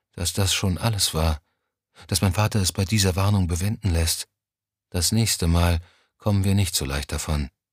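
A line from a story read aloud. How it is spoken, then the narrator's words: Quiet. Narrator (German): sagte sie schließlich leise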